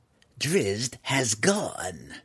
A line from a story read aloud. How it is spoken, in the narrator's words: growled Malice